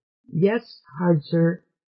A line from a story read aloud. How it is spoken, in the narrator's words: Trit quavered